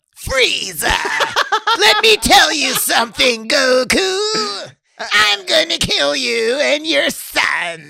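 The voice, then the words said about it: Imitated cartoon villain voice. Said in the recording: “the most hilarious villain voice was Frieza”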